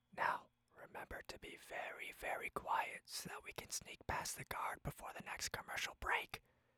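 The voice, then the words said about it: Whispered line. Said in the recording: “Here's a line in a whisper.”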